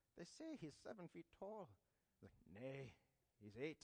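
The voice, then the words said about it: Bad put-on Scottish accent. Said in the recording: “Excuse my terrible Scottish accent.”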